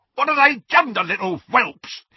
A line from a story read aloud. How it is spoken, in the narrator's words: he screamed